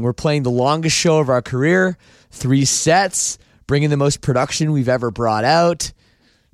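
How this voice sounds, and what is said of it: Worn-out, strained voice. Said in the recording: “My voice is a little worn out. You can probably hear it.”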